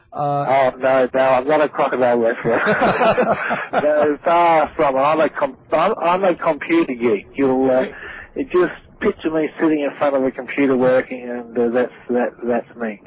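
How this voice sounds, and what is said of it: Clear Australian accent. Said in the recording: “you have a clear, distinctive Australian accent ... the classic Aussie accent that Mick Dundee does”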